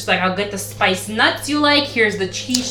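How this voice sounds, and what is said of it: Imitates a character's accent, poorly. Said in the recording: “Is that how she talks? ... I'm probably doing it wrong. I'm not good at accents”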